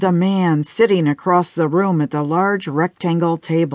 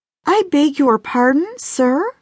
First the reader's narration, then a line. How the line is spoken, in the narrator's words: squeaked Roma